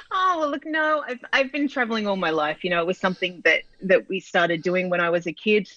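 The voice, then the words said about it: Australian accent. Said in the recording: “is in Sydney, Australia ... you're going to enjoy her accent as much as I do”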